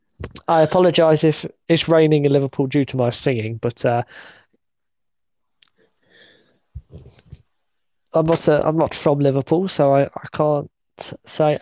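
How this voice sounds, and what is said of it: English accent, not Scouse. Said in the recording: “as you could probably tell from my non-Scouse accent”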